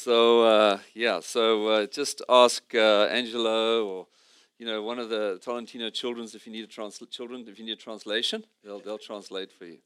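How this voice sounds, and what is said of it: Speaks with a noticeable accent. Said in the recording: “I hope you can understand my accent. I mean, I don't have an accent. You guys have an accent.”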